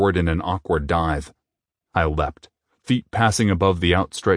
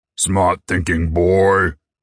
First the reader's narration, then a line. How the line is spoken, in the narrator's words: came a booming voice